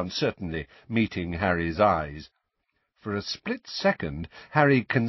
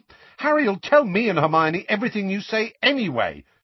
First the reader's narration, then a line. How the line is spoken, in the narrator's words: said Ron hotly